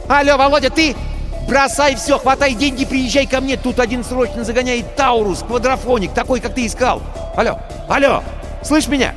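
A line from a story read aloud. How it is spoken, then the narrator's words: Cheerful excited shouting. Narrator (Russian): В трубке весело и возбужденно завопили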